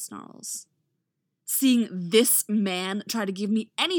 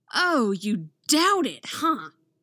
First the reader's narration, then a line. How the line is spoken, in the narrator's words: She says, in a low and dangerous growl